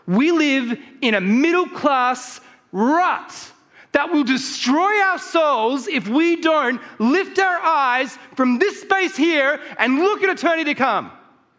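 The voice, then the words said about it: Fired-up yelling. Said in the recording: “I'm going to get fired up here a second, so just brace yourselves ... I'm not yelling at you because I'm mad. I'm yelling”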